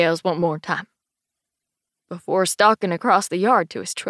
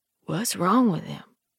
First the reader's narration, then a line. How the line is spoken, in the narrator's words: Cedar whispers